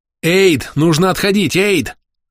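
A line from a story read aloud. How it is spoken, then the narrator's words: Yelling. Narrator (Russian): Заорал я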